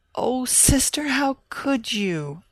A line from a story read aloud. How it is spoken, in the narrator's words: Ann Eliza wailed